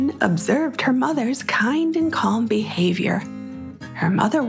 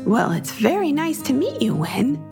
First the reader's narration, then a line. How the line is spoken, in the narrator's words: said Parker